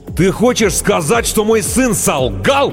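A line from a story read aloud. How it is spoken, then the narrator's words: Deafening roar. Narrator (Russian): Оглушительно взревел детина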